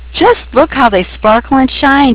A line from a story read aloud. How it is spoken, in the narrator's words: she exclaimed